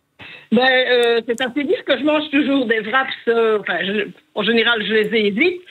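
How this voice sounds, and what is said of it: Regional French accent. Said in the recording (French): “J'adore votre accent.”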